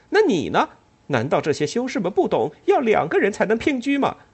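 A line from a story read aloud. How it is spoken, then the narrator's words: Loud laughter. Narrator (Chinese): 坐在近处的人哈哈大笑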